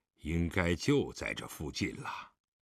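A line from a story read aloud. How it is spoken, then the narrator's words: Muttering. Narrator (Chinese): 狄仁杰嘴里嘟囔道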